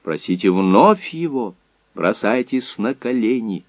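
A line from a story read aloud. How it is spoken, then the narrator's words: Quiet. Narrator (Russian): он тихо ей сказал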